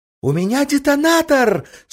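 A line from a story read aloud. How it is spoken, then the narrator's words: Joyful exclamation. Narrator (Russian): с выражением абсолютного счастья воскликнула она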